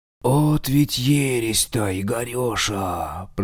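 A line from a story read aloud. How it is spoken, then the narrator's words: Drawn-out, disconcerted. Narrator (Russian): протянул он обескураженно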